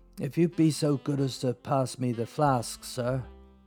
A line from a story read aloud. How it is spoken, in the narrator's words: Larry smiled weakly